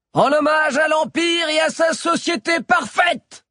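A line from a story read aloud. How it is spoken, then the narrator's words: Knight shouting. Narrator (French): cria l'un des chevaliers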